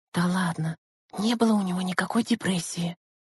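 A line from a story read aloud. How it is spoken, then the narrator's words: Whisper. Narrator (Russian): шепотом отозвалась Лена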